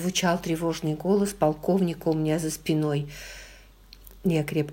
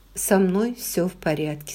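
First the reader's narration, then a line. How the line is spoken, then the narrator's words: Plain. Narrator (Russian): сказала я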